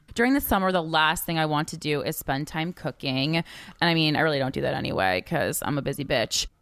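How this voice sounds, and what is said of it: Vocal fry, creaky low voice. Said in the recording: “vocal fry ... they start talking like this, and it's when they're trying to sound smart. Listen to this vocal fry coming out.”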